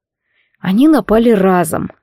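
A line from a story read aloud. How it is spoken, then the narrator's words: Sigh. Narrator (Russian): вздохнул Рейджин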